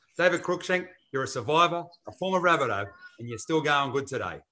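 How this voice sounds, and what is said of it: Announcer-style radio voice. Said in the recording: “my radio podcast voice”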